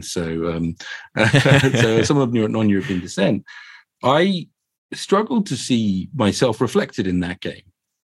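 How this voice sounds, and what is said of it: South London English accent. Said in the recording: “I can tell by my accent, I grew up in sunny Croydon.”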